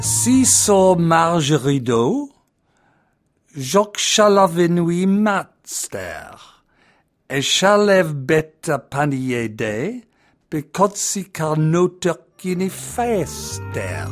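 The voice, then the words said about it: Horrible French accent. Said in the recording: “my horrible French accent”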